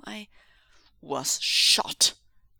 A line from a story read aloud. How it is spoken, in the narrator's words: Ming Zhu snarled